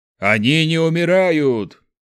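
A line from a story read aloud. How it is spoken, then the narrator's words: Shouting. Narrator (Russian): крикнул Борг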